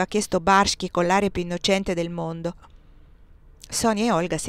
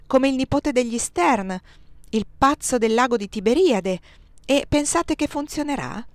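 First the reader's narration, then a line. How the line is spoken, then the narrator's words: Exclaimed. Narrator (Italian): aveva esclamato Barschi prima di mettersi a ridere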